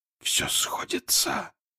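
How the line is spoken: Whisper. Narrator (Russian): прошептал он

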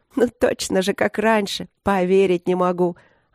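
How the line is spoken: Laughing. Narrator (Russian): Она засмеялась

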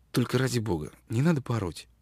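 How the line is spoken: Quiet. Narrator (Russian): тихо промолвила Джан

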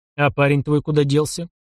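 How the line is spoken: Gloomy question. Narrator (Russian): мрачно спросил Иван Степанович, уже понимая, что та история ему еще крепко аукнется

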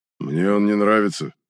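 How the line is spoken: Sullen mutter. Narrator (Russian): хмуро буркнул охранник

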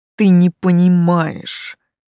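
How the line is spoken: Moaning demon. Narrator (Russian): простонал демон

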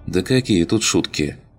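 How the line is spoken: Sigh. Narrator (Russian): Вздохнула Лина

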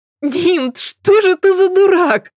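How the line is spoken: Girl laughing and squealing. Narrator (Russian): смеялась и повизгивала девушка

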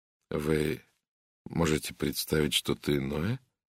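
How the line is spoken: Quiet reply. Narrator (Russian): тихо ответила Надин Бойнтон

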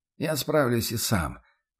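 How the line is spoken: Quiet, unyielding objection. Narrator (Russian): по-прежнему тихо, но непреклонно возразил боец

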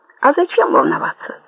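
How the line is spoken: Sighing. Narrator (Russian): вздохнула Буладзе

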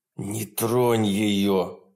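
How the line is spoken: Hissed. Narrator (Russian): прошипел он

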